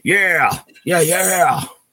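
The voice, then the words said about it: Imitates a metal singer's voice. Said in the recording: “my James Hetfield impression.”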